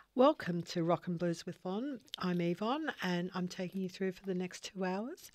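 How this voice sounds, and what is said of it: Hoarse, fading voice. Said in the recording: “I'm losing my voice,”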